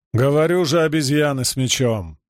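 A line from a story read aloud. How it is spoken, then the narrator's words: Interrupting. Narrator (Russian): встряла Тралгутка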